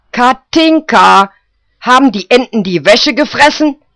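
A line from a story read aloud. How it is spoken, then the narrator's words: Old woman screaming. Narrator (German): schrie die alte Guschke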